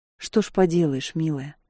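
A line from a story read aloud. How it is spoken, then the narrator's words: Quiet. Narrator (Russian): тихо сказал он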